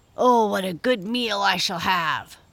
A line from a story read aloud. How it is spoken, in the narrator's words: grunted Squinty